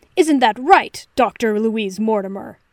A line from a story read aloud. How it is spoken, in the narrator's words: Sherlock snapped